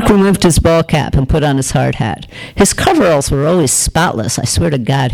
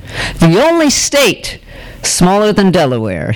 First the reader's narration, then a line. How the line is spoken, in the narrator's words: he said triumphantly